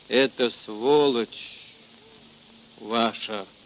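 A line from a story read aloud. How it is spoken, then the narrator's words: Gurgling voice, swallowing blood. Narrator (Russian): Глотая кровь, заговорил он булькающим голосом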